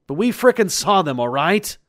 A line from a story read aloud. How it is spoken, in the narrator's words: screamed back at him